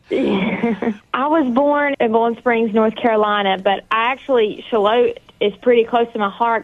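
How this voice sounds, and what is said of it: Strong North Carolina accent. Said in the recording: “That North Carolina accent is strong.”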